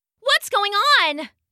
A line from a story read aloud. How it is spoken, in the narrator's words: the little bunny shouted